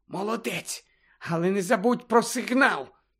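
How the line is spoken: Whispering. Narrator (Ukrainian): Герміона прошепотіла

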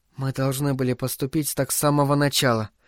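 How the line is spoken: Quiet. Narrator (Russian): тихо сказала Саёко

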